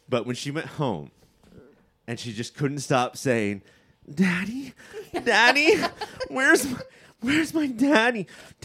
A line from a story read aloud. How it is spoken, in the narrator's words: I gasped